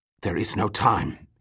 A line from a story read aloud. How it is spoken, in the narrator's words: he hissed suddenly